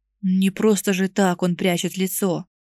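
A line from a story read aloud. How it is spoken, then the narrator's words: Offended mutter. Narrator (Russian): буркнул обиженный Бэк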